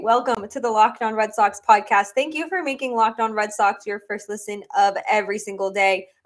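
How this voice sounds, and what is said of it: Congested, sick-sounding voice. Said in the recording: “I've been battling a cold. If you can hear that in my voice,”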